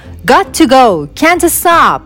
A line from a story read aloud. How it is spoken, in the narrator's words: would shout, rushed past them